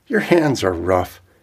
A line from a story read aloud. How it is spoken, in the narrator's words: She woke up then and laughed and said